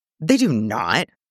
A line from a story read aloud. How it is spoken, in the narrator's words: SecUnit scoffed